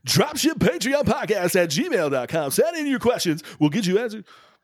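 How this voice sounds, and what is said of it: Radio announcer voice. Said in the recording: “You got your radio announcer voice on today”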